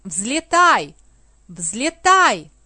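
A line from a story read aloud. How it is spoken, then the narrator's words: Shouted. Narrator (Russian): закричал Аладдин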